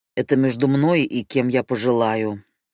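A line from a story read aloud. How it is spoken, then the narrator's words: Snorting. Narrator (Russian): фыркнул Марит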